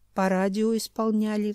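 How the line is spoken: Sighed. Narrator (Russian): вздохнул Юрайдах

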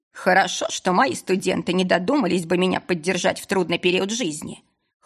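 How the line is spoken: Wry snort. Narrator (Russian): хмыкнул лорд Ридан

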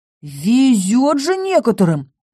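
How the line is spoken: Exclaimed. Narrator (Russian): воскликнул Торн

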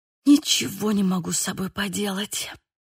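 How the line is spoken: Strained, sniffling. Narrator (Russian): выдавила я из себя, шмыгая носом

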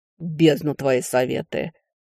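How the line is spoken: Scornful snort. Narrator (Russian): фыркнул некромант

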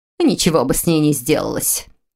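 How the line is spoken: Cold, sharp declaration. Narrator (Russian): все так же холодно и резко заявила госпожа Фолкнер

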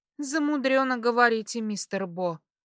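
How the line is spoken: Snort. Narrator (Russian): фыркнула я

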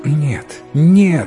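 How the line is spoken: Queen exclaiming. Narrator (Russian): воскликнула царица

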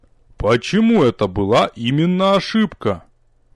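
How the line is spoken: Slow, measured remark. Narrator (Russian): Мэтр Лонер медленно обронил

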